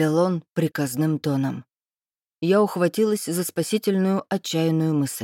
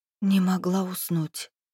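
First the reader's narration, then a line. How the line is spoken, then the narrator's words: Trembling whisper. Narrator (Russian): прошептала я, заставляя голос дрожать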